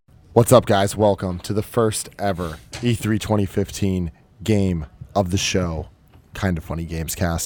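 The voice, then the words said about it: Worn-out, low-energy, fading voice. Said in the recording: “My voice is gone. I'm sleeping. ... tired. ... Nothing in the tank. ... I have no energy”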